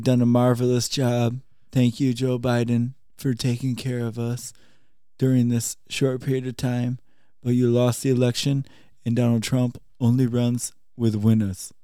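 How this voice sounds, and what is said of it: Political impression drifting between voices. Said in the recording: “your impression end in Arnold Schwarzenegger ... sounded a little bit more like Bernie Sanders”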